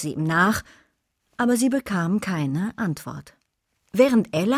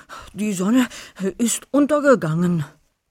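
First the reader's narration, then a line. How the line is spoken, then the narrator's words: Panting. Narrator (German): keuchte Wolfi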